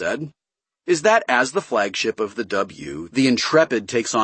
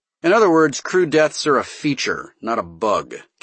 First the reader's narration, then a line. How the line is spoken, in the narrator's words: Castaway said, dryly